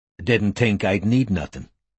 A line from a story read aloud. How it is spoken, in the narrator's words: said Wilson